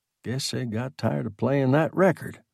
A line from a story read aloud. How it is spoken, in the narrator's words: he muttered